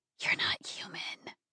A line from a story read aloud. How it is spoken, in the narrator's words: breathed